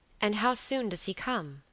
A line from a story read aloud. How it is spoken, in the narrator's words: I asked